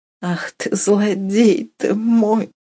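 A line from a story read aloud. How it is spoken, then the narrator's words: Tearful answer. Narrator (Russian): Сквозь слезы отвечала Катерина Львовна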